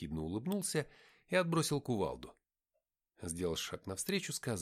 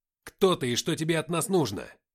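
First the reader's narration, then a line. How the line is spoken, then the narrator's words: Barking shout. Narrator (Russian): рявкнул я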